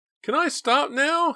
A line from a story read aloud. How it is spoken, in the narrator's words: he begged Justine